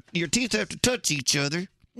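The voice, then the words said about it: Put-on Texan accent, gritted teeth. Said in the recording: “if you want to talk like a Texan, you just kind of grit your teeth like this.”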